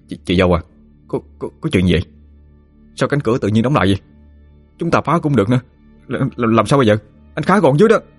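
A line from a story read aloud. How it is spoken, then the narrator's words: Worried stammering. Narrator (Vietnamese): lo lắng, miệng lắp bắp nói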